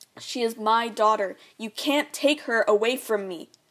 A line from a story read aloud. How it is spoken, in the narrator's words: yelling